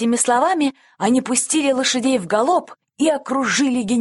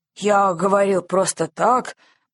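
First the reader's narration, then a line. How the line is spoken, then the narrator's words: Grumbling. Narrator (Russian): проворчал генерал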